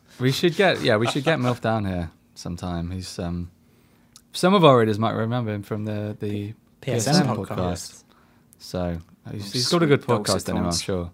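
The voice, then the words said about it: Worn-out, hoarse voice. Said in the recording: “My voice has given up on me ... as it is.”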